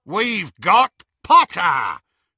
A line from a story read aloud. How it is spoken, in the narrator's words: Greyback roared triumphantly